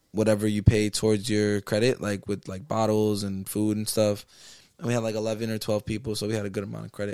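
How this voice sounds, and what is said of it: Hoarse, partly lost voice. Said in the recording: “I lost my voice again, low key. You can kind of hear it. ... You can definitely hear that.”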